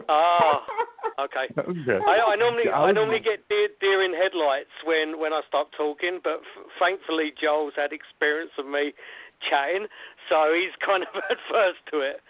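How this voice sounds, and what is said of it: Speaks with a noticeable accent. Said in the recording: “can you keep up my accent”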